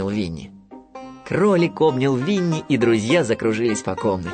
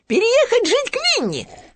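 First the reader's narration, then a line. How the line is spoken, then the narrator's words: Joyful exclamation. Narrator (Russian): радостно воскликнул Хрюня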